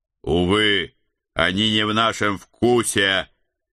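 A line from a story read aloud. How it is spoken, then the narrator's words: Loud, coarse soldierly. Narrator (Russian): Громко оповестил я, добавляя в свой голос максимум грубой солдафонской брутальности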